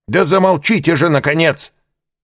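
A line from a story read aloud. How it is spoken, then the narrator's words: Shouting from audience. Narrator (Russian): в третий раз крикнули из партера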